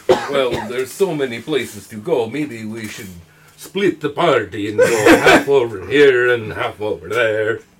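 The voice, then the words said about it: Put-on vampire-like accent. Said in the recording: “Your accent sounds more like a vampire.”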